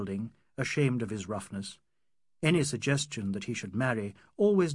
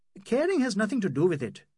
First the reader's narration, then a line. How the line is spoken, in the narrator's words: he said impatiently